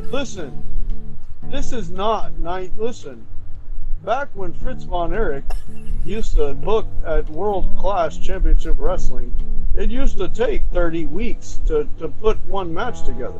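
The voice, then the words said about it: Impression of DKM. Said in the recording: “do my DKM impression”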